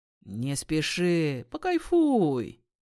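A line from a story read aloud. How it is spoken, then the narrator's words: Laughing. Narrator (Russian): Милана засмеялась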